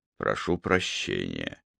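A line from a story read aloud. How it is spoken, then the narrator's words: Mumbled. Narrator (Russian): пробормотал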